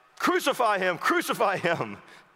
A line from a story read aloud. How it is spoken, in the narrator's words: the chief priest and the officer … they cried out